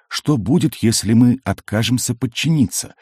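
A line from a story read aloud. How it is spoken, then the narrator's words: Calm question. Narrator (Russian): спокойно спросил Эл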